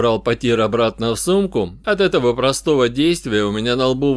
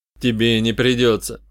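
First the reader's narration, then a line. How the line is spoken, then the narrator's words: Forced calm. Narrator (Russian): ответил, стараясь говорить спокойно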